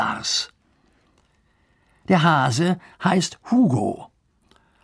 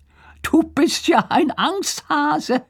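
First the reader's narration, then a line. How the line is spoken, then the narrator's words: Said laughing. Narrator (German): sagt Lars und lacht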